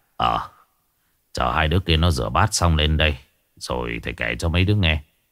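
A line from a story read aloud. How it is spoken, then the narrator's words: Teacher sighing. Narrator (Vietnamese): thầy Quang thở dài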